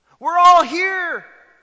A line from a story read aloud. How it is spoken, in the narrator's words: shouts Paul to the jailer